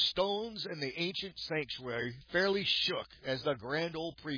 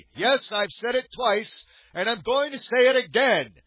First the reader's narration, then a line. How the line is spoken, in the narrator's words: Newton said loudly